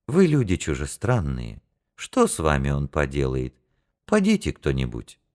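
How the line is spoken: Gentle, kind. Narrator (Russian): ласково сказал

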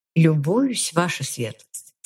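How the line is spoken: Calm reply. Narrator (Russian): спокойно отозвалась я

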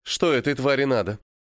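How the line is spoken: Angry question. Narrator (Russian): зло спросила Марта

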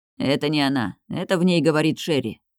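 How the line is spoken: Gloomy voice. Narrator (Russian): Мрачным голосом произнес

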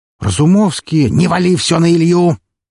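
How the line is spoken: Barked. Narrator (Russian): рявкнул Григорий

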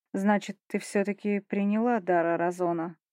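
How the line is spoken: Muffled dull voice. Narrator (Russian): Как-то глухо проговорил

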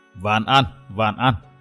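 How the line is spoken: Old man mumbling. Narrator (Vietnamese): Lão trưởng lầm nhầm nói

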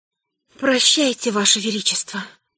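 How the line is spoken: Near whisper. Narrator (Russian): почти шепотом сказала

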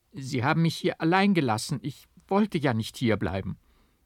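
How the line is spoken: Tearful stammering. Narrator (German): stammelte ich unter vielen Tränen

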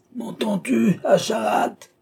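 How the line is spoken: Old man's raging roar. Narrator (French): vociféra le vieillard en déchirant son gosier pour faire passage à cette dernière irruption de sa colère

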